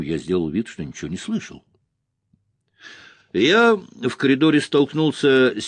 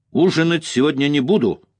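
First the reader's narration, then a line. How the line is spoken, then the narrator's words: Furious shout. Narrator (Russian): крикнул я ей в ярости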